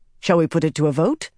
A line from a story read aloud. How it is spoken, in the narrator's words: Ramonda said quickly, as if pouncing on the moment